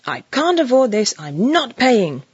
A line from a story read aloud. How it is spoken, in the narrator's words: the woman was exclaiming